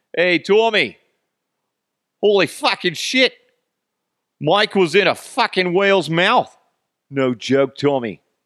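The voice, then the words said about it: Poor Boston accent drifting Australian. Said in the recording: “I've forgotten how to do a Boston accent. ... See, now I go into the like Australian kind of thing.”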